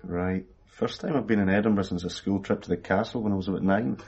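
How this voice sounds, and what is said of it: West of Scotland accent. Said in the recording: “You're not from this side of the country ... So, you are from the west? ... I thought I detected an accent.”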